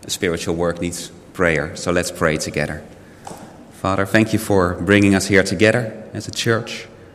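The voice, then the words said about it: Unwell, strained voice. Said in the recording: “You can probably hear from my voice that I'm not 100%.”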